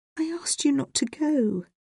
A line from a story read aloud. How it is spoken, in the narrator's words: said Bridget quietly